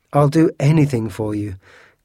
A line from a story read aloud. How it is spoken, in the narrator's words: cried D'Artagnan rashly